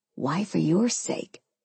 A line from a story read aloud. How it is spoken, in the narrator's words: he whispered